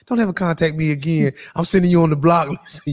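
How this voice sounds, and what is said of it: Imitates another person's voice. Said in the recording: “In my Tanya Brown voice,”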